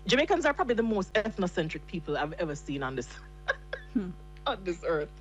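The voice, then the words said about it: Thick Jamaican accent. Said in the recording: “your accent is so completely authentic ... you sound like us ... the accent is very thick, so it's kind of hard to hide”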